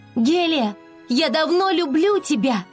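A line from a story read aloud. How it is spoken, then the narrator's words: Resolved, shouted. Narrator (Russian): Флора, наконец, решилась и прокричала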